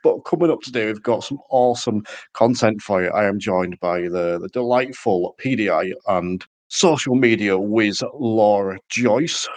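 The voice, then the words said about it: Congested, slightly nasal voice. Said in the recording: “You may potentially be able to tell I have a bit of a cold,”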